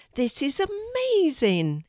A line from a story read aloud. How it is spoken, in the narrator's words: exclaimed Drew